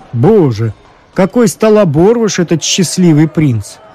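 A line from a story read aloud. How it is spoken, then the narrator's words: Exclaiming official. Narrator (Russian): воскликнул городской голова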